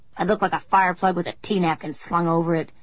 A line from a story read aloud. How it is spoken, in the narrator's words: Corrine snarled